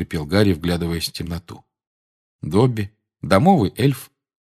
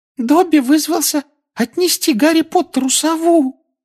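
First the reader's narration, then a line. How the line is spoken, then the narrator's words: Adoring squeaky elf voice. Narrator (Russian): С обожанием на лице пропищал эльф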